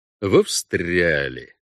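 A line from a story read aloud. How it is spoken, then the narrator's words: Drawn-out. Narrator (Russian): протянул он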